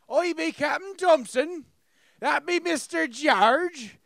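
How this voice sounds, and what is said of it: Put-on pirate accent. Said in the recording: “I always do a pirate accent”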